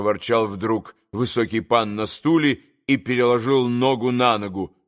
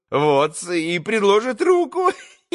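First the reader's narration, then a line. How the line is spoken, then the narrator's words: Giggling. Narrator (Russian): Хихикнул, закончив Максимов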